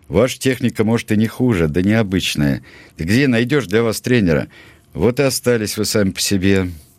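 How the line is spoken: Sad remark. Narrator (Russian): грустно заметил

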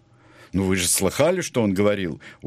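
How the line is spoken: Curt addition. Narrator (Russian): затем коротко добавил

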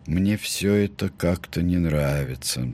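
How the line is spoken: Glum, dejected. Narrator (Russian): сказал он уныло

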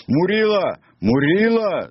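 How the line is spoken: Group shouting. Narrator (Russian): закричали они

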